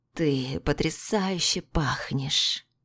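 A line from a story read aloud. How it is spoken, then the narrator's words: Purring into ear. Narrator (Russian): Мурлыкнул мне в ухо Илья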